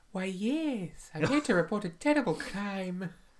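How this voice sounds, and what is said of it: Impression of a film character. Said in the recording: “She's not Scottish. ... my impression”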